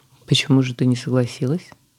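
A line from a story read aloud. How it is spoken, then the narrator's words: Man, calm question. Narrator (Russian): спокойно спросил мужчина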